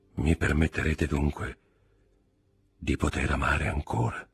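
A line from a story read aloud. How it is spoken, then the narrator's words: Murmured. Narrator (Italian): mormorò il conte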